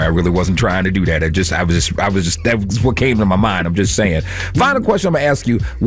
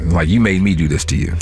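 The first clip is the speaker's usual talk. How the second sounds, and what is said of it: Deep put-on voice. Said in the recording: “talking in my deep voice”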